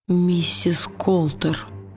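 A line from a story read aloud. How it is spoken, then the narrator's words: Whisper. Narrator (Russian): прошептал он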